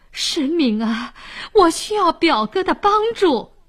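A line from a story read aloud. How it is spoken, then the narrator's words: Pleading. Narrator (Chinese): 沈呆 哀求说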